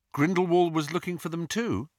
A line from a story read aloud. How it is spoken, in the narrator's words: he asked